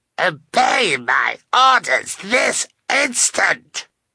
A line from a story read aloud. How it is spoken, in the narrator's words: screamed